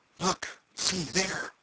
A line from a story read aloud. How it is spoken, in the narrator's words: whispered Tom